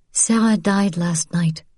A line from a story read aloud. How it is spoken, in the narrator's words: she said gently